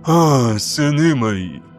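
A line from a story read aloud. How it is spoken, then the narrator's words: Exhaled. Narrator (Russian): выдохнул примарх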